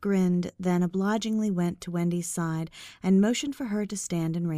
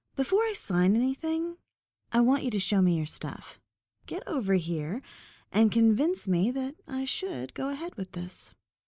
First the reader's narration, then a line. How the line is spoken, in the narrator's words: Winking playfully, added